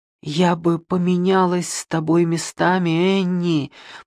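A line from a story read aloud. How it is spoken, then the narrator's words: Whisper. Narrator (Russian): прошептала Полли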